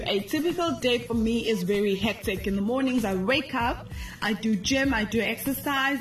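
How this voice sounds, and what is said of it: Loud speaking voice. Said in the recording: “I'm sure you guys can hear from my voice, I'm a loud person.”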